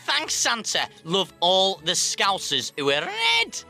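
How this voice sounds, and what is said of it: Put-on Liverpool Scouse accent. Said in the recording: “to all football friends from Liverpool, I'm really sorry about that accent”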